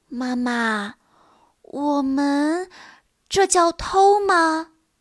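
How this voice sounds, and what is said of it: Small, quiet voice. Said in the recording (Chinese): “小声地问”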